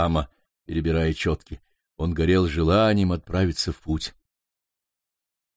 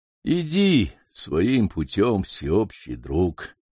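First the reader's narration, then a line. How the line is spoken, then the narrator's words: Weak old voice. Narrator (Russian): слабым голосом проговорил старый воин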